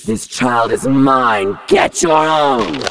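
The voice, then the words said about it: Scary monster voice. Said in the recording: “the scary voice”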